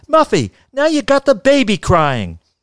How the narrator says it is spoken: She screamed

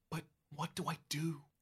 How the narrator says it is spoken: You whisper

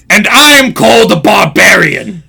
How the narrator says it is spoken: grunted Grignir in a disgusted tone

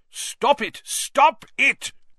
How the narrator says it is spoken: cried the manager

